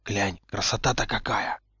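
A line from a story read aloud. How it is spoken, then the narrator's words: Whisper. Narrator (Russian): шепнул Поттер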